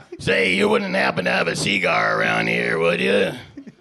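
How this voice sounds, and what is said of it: Imitates another person's voice. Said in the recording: “that shitty impression”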